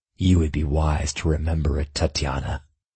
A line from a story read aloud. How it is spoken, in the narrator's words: my client growled back, shadows shifting and eddying about him menacingly